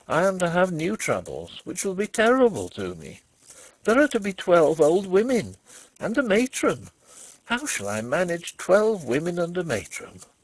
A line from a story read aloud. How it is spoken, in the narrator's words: said he, half laughing